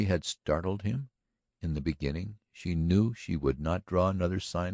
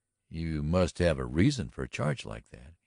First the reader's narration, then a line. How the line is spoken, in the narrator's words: he remarked evenly